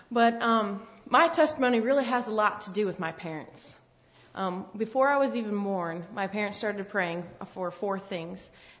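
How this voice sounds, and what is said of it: Northern US accent, fast speech. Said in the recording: “I am a Yankee. ... I'm told I talk fast, and sometimes I have an accent”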